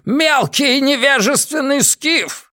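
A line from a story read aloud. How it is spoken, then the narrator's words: Roaring. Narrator (Russian): взревел он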